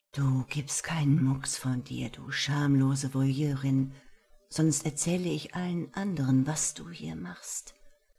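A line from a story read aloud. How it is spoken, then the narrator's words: Very quiet whisper. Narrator (German): flüsterte eine Stimme so leise in ihr Ohr, dass sie beiden, die sich nebenan vergnügten, davon sicherlich nichts mitbekamen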